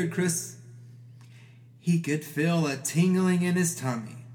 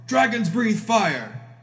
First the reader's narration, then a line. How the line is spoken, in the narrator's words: shouted his father